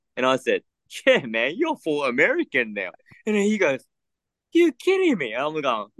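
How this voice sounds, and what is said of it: Australian accent. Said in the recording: “you're Japanese with Australian accent”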